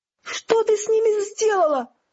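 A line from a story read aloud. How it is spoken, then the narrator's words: Shouting. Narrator (Russian): закричала Тиффани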